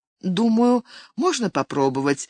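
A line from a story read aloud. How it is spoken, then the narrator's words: Confused, hesitant agreement. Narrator (Russian): растерянно согласилась Бриджит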